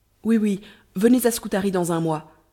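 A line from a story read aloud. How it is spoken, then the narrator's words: Exclaiming. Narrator (French): s'écria Ahmet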